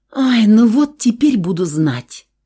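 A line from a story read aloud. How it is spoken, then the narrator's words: Sighing. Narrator (Russian): Вздохнула я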